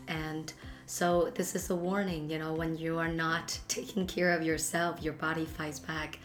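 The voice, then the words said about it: Sick voice from a cold. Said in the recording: “as you can hear from my voice, it's not the most pleasant. I got a really, really bad cold.”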